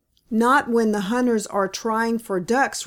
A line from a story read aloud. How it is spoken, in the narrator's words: replied Sammy